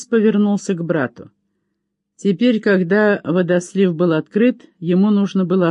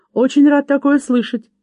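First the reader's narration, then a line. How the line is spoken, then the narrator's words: Cheerful reply. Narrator (Russian): весело отозвался Лаки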